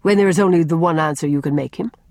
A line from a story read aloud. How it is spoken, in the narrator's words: said, coldly contemptuous